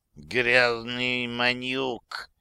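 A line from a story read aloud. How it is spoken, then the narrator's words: Hissing. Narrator (Russian): прошипел Мехмет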